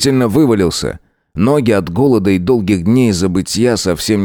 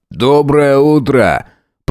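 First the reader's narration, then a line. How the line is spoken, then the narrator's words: Grumble. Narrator (Russian): пробурчал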